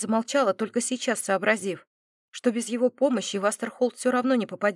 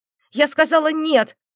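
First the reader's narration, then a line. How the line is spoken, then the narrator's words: Barked. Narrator (Russian): рявкнула Дина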